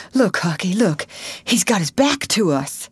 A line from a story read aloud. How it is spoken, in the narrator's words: Tom choked off and whispered